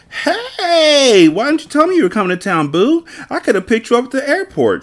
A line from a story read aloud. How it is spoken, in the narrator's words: greeted happily